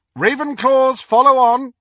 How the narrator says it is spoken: cried Professor McGonagall

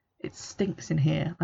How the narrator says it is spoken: I mutter

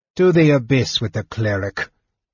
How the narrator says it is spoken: Pyro snarled

